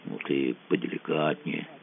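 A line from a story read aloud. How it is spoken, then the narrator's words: Quiet advice. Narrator (Russian): тихонько посоветовал Мазу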